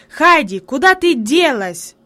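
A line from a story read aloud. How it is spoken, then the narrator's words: Sudden angry shout. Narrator (Russian): вдруг сердито крикнул он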